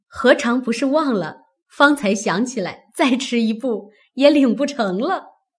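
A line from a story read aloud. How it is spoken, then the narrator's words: Laughing. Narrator (Chinese): 那媳妇笑道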